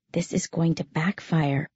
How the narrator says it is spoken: I whispered to her in church

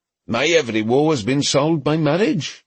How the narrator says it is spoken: Griffin was in complete earnest

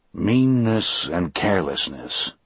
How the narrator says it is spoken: I said grimly

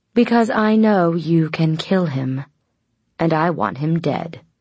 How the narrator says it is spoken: Lucien frowned, speaking slowly as if to a child

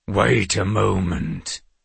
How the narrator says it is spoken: boomed a deep voice powerful enough to vibrate the glassware

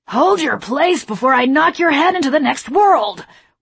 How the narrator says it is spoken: one guard growled

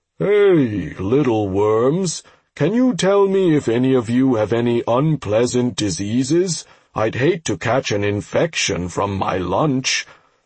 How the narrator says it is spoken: The bug yawned widely and asked lazily

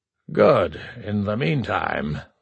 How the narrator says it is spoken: Zarnak surprised himself with a chuckle of true amusement

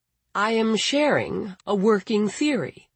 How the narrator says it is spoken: Peregrine said

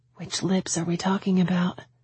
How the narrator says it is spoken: I whispered back

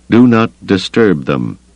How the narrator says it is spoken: the Wookiee told her firmly

